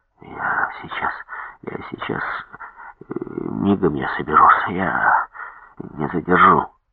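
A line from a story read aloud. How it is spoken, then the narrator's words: Continuous muttering. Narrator (Russian): непрерывно бормотал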